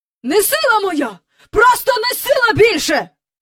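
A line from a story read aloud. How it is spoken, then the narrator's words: Angry shouting. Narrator (Ukrainian): кричав містер Бенкс, сердито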